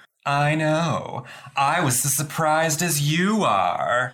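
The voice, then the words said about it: Imitates a TV character's voice. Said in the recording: “your Samantha impression... That's how she sounds.”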